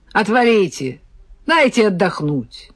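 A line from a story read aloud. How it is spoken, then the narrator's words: Irritated shout. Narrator (Russian): Высокая девица в красном платье с кружевами раздраженно выкрикнула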